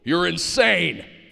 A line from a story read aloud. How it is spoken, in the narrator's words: Florida shouted